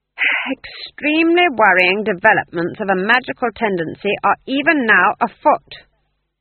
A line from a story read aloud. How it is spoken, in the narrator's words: she said loudly